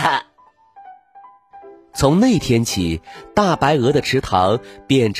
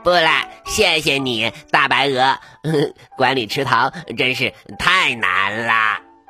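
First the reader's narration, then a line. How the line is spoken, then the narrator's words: Duck, laughing. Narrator (Chinese): 鸭子笑着说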